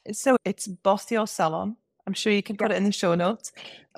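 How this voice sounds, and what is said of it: English accent. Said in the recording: “my English accent, no one from like the States or Canada can understand what I'm saying”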